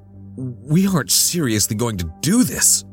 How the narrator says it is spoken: I gasped, hand shaking

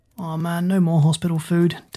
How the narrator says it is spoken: Daz groaned

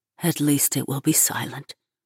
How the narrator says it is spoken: Munzer whispers, her lips fluttering

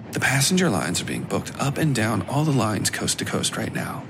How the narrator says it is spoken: whispered

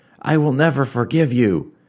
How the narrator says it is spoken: Rigret cried, finally spent and exhausted

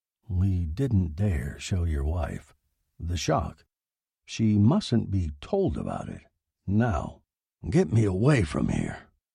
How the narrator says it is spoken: Wolcott said quietly

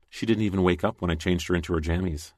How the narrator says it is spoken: she said quietly in my ear

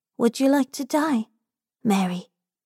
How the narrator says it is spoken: Robin whispers

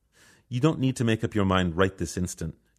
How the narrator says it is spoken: Judge Cho says

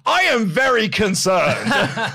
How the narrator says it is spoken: Mike Bennett, shout out to Mike Bennett, yeah, in this, just at one point shouts very loudly

